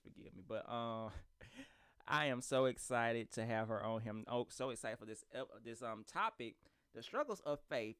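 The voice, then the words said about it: Country accent. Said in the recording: “It's my accent, y'all. I'm country.”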